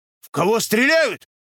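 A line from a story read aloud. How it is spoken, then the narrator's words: Shouting. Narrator (Russian): закричал Никита Псов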